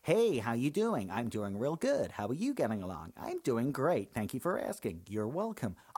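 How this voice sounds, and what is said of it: Put-on American accent. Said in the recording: “people impersonate Americans in this country, they generally do the whole”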